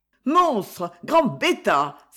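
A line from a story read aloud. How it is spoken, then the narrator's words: Furious exclamation. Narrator (French): s'écria Gariguette en furie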